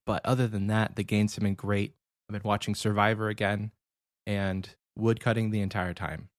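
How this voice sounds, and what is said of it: Slightly nasal, congested voice. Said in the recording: “I've got a slight cold ... sore throat, congestion, all of it. I feel a little nasally. If I sound a little nasally, that's why.”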